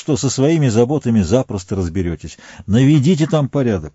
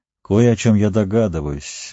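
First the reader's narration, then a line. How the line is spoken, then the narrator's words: Gloomy pronouncement. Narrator (Russian): мрачно изрек Сэм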